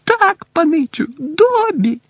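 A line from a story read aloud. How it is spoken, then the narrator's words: Squeaky small voice. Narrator (Ukrainian): запищав голосочок десь у районі пупа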